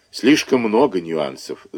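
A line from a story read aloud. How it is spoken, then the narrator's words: Sigh. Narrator (Russian): вздохнул Круглов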